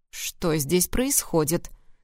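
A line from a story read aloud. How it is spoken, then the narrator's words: Stern question. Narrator (Russian): строго спросил Даррен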